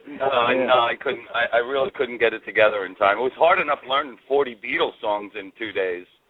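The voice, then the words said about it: Slightly worn, hoarse voice. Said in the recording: “my voice is a little shot from singing Helter Skelter for three nights.”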